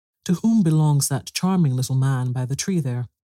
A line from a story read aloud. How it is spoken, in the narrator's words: exclaimed Maria